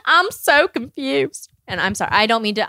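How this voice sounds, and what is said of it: Put-on Southern accent. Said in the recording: “I like a Southern accent. They're fun to do.”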